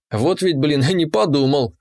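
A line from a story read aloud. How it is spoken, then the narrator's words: Silent inner snort. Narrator (Russian): мысленно хмыкнул я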